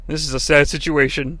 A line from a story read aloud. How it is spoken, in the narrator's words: Bobby the Brain says under his breath